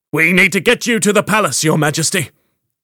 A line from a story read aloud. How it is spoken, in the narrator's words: said, bellowing